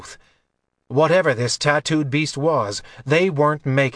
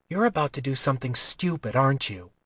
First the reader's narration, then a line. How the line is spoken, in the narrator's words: Kylar smiled grimly